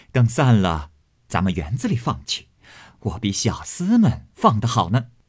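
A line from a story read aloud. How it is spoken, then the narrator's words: Laughing. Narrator (Chinese): 凤姐儿笑道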